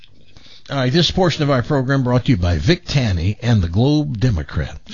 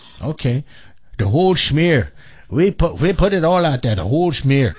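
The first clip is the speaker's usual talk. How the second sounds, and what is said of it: Poor put-on German accent. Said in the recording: “that's the worst German accent I've ever heard”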